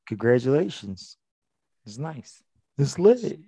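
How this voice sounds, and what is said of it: Imitates another person's voice. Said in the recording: “In my Travis Scott voice.”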